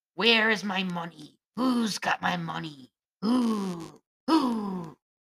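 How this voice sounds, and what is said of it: Impersonates the dead woman's voice. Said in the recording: “That was a good impersonation”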